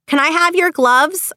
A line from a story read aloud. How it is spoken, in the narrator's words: screamed